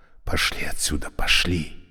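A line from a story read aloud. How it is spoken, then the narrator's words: Whispered. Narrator (Russian): зашептал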